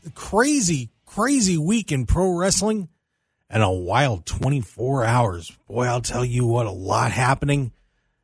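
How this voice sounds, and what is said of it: Raspy voice from a cold. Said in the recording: “as you can tell by my raspy tone, yeah, I'm fighting a little bit of a cold”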